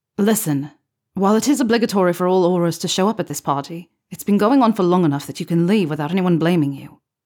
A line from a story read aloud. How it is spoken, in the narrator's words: Harry replied curtly